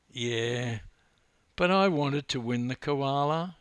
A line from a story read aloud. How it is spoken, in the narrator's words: sobbed